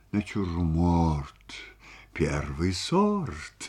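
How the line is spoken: Mumbling. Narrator (Russian): бормотал он

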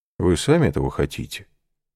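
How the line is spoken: Calm reply. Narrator (Russian): спокойно отвечал

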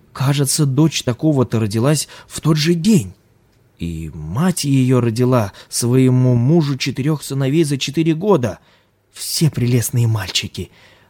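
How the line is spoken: Woman exclaiming. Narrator (Russian): воскликнула жена земледельца

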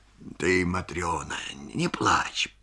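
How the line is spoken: Mutter. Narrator (Russian): бормочет он

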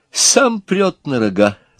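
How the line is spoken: Laughing. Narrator (Russian): засмеялся губошлеп

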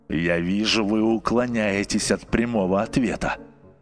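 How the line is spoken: Sullen grumble. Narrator (Russian): проворчал угрюмо нотариус

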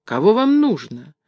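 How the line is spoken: Calm young woman. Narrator (Russian): спокойно спросила его смуглая девушка

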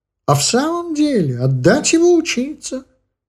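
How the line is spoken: Bright exclamation, old man. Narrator (Russian): светло воскликнул дед

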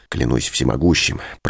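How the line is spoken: Whisper close to ear. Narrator (Russian): прошептал он, наклоняясь к моему уху

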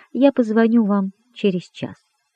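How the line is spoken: Calm. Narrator (Russian): спокойно сказала камеристке

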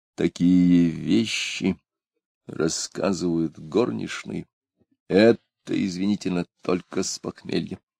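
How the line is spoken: Strange stammering voice. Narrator (Russian): Чужим голосом, заикаясь, он сказал

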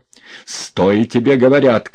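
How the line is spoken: Shouting. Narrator (Russian): крикнул Иван

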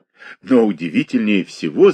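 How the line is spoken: Laughing. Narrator (Russian): засмеялся Коврин

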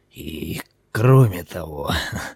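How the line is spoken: Old man laughing softly. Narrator (Russian): тихо засмеялся старик

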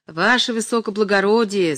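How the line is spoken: Shout. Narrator (Russian): закричал он

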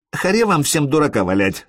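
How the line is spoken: Angry. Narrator (Russian): сказал Элис злобно

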